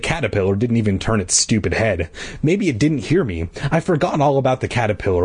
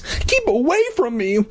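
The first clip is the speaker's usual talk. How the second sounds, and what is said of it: Tiny yelling voice. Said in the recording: “I yelled in my tiny voice.”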